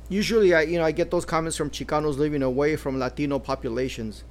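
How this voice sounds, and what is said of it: Chicano Los Angeles English accent. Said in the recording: “I couldn't hide my Chicano accent ... my accent ... It's my Chicano LA accent.”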